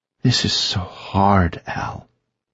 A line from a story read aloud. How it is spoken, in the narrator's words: Maya sighed